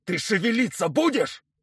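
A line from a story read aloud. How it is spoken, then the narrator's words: Yelling. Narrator (Russian): заорал Николаевич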